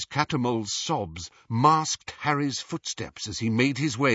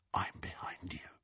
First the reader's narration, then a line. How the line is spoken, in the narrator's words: he whispered into Hermione's ear